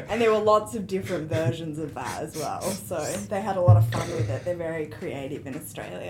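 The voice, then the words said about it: Australian accent, slightly British. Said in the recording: “she is from Australia, if you can tell, right? ... Is it accent or? ... I was in London for 3 years ... a little bit British”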